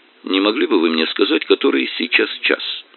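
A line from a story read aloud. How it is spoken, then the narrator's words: Calm. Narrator (Russian): повторил спокойным голосом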